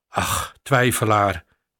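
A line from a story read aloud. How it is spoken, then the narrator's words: Plain. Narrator (Dutch): zei hij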